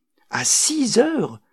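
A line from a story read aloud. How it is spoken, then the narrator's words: Surprised exclamation. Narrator (French): s'exclama ma tante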